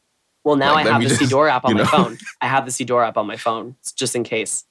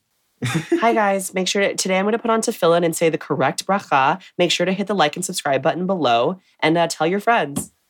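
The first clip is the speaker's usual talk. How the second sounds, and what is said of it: Imitates a YouTube beauty vlogger. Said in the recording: “This is my impression of a beauty vlogger on YouTube.”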